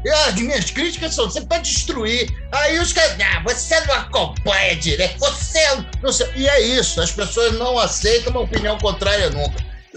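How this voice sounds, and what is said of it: Imitates another person's voice. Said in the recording (Portuguese): “essa imitação, grande”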